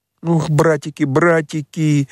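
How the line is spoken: Trembling sobs, chattering teeth. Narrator (Russian): всхлипывал Петька, дрожа, как лист и стуча зубами

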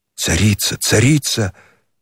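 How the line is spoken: Reverent whisper. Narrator (Russian): пронеслось благоговейным шепотом

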